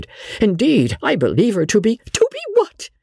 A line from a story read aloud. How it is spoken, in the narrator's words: cried out Lady Jane, her clear voice thrilling and her heart beating violently